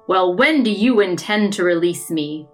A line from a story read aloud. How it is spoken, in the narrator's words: He looked angry and annoyed and growled out